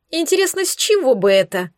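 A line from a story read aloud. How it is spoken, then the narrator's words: Snide snort. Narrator (Russian): Ехидно хмыкнула Ольга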